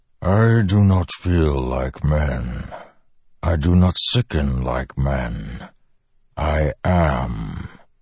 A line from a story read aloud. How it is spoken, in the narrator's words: the Stormfather rumbled